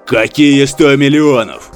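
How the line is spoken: Roaring. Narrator (Russian): взревел Фобос

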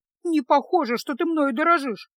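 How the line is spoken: Grumbling mutter. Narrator (Russian): буркнула Феска

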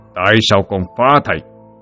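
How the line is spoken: Harsh, through gritted teeth. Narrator (Vietnamese): Vạn Lĩnh gằn giọng

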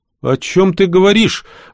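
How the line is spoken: Agitated interruption. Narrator (Russian): взволнованно перебил

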